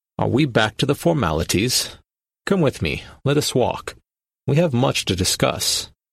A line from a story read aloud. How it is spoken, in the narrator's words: Hendari chuckled, and in his rich, smooth voice said